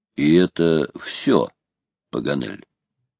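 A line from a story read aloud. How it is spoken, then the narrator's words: Calm question. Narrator (Russian): Только майор спросил-таки своим неизменно спокойным голосом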